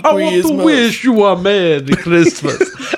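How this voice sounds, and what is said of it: Spanish accent that sounds Transylvanian. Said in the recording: “why do you sound like Dracula? ... trying to do like a Spanish accent thing, yeah. But it comes out Transylvanian.”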